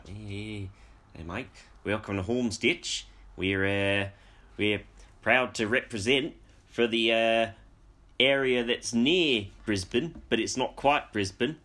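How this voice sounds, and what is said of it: Unsteady attempt at Australian accent. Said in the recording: “Do an Australian accent ... I don't know where that accent's slipping ... It's sort of slipping between South African and New Zealand”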